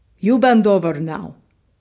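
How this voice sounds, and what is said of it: Put-on Ukrainian accent. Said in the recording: “Mistress Cat speaks to me in a Ukrainian accent. She's from Detroit.”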